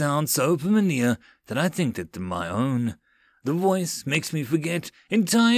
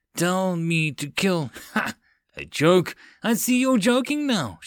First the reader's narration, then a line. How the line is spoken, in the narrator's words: giggled, a manic smile